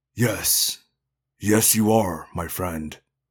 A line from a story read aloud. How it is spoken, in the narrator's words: Dak said sadly